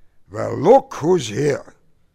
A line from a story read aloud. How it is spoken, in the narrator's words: grunted in feigned surprise